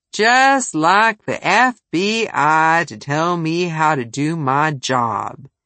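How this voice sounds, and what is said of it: Slow Southern drawl. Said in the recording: “He had a southern drawl and said FBI slowly ... emphasizing each letter distinctly, the I sounding like ah”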